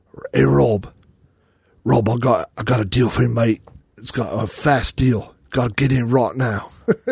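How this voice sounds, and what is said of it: British-accented impression of another person. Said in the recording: “my Dean impersonation ... Dean is from across the pond”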